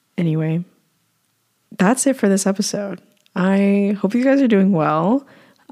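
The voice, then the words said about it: Hoarse, strained voice. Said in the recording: “my voice is breaking down, I apologize for any hoarseness of my voice”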